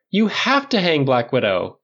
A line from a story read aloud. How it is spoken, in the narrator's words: Clint cried